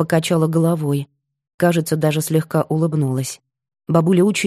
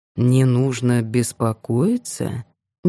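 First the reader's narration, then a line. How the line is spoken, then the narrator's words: Slow repetition. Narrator (Russian): медленно повторил Кирилл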